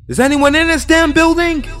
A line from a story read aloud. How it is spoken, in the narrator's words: screamed